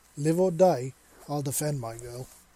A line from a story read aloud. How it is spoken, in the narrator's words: Seven said proudly